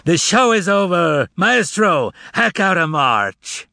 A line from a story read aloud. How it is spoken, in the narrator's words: the cat roared out to the theater in a human voice